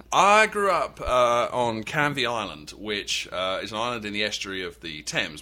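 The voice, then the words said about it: English accent. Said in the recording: “people can tell already from your voice, you're not from North Carolina ... because of my accent, people tend to think I just got here ... you grew up in England”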